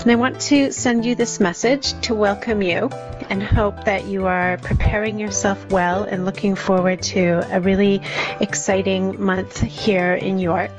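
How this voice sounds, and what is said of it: Canadian English accent. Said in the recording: “my accent is a little bit different from the other speakers on this recording, and that's because I'm Canadian”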